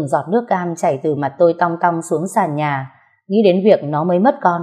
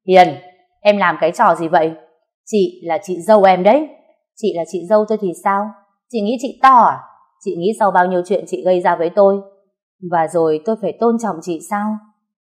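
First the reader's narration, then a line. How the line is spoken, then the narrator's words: Loud shout. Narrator (Vietnamese): quát lớn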